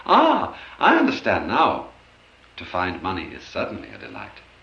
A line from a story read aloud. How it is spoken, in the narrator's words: with a cry of joy he exclaimed